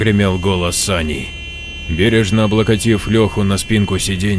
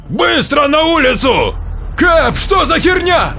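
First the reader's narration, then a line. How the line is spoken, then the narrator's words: Frantic confused yelling. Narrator (Russian): орал как одержимый Эд, ничего не понимая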